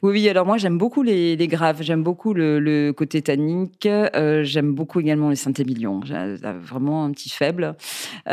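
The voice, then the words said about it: Singsong Bordeaux French accent. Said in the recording (French): “vous êtes bordelaise, on a encore l'accent euh, qui chante d'ailleurs”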